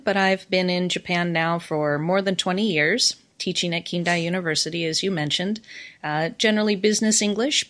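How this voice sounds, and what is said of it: American accent. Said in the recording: “as you can tell by my accent, I am American”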